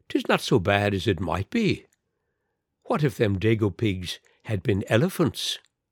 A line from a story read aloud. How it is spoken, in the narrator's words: said cheerfully